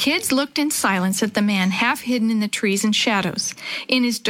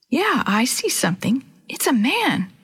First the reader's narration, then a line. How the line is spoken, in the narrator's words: Chris exclaimed softly